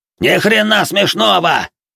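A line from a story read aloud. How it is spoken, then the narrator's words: Roar. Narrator (Russian): взревел лысый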